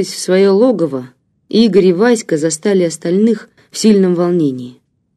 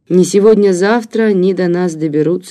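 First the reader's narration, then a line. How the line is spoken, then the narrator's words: Plain. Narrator (Russian): сказала Марина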